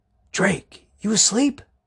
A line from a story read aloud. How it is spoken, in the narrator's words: He whispered